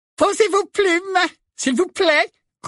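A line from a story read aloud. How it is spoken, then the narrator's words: Squeaked. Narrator (French): couina le professeur Flitwick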